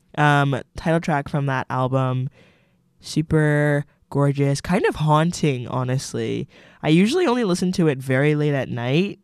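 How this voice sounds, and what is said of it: Strained voice, cracking, losing voice. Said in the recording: “Oh, hello, voice crack. I'm losing my voice a little bit”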